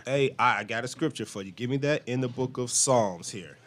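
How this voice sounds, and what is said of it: American accent. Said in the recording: “I know y'all Americans... I hear the American accent.”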